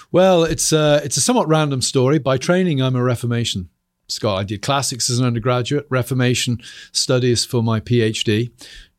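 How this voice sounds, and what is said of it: British accent. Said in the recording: “Enjoy the British accent. I think it's our second British accent on the show ... you have a little bit of a funny accent, too.”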